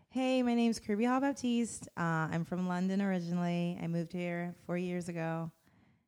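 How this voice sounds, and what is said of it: Put-on American Valley accent. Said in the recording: “Can we hear your American accent? ... it sounds really valley and terrible ... that was amazing”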